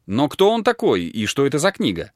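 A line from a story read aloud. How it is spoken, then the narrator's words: Plain question. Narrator (Russian): спросила Паула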